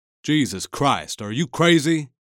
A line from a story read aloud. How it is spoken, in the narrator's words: said furiously